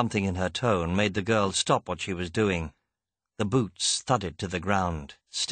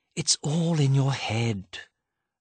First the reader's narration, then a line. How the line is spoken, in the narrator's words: the Queen sighed